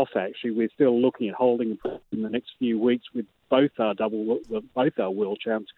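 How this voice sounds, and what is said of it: Australian accent. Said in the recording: “I don't detect a Morecambe accent. I detect possibly a New Zealand or Australian. ... A bit Melbourne. More Melbourne than Morecambe.”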